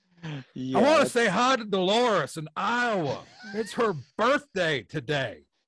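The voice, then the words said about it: Imitates another person's voice. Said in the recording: “doing the Harry Carey impersonation ... you're just doing Will Ferrell at this point ... It's a very good Will Ferrell impersonation”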